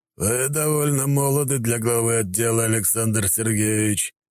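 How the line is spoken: Emperor's slightly hoarse, firm voice. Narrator (Russian): голос императора был чуть хриплым, но твердым

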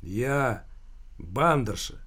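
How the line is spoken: Gloomy. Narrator (Russian): мрачно проговорила тетка

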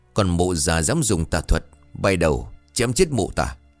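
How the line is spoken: Loud hissing shout. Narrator (Vietnamese): Trần Kha rít lớn

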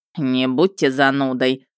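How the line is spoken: Snorted. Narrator (Russian): фыркнул Ярый

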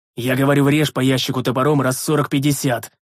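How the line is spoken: Roared. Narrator (Russian): взревел я

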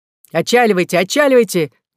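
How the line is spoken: Shouting. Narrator (Russian): кричал Генри Сейтон

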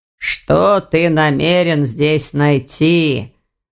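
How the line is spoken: Disgusted groan. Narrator (Russian): застонал Аристакес, чувствуя, как обувь наполнялась отвратительной влагой

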